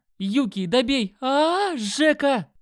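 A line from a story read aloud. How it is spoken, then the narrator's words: Yelling. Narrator (Russian): Заорал он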